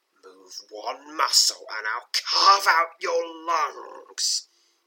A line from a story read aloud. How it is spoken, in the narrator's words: hisses a thin, sinister voice